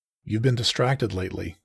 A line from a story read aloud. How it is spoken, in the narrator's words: I finally said